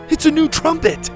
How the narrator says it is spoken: Tyler shouted

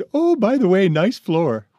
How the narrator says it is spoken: gales of laughter

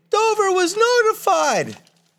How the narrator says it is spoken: They screamed

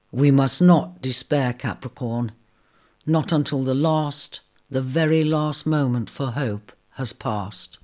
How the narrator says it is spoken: he said gently

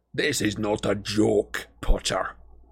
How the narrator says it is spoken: growled Scrimgeour

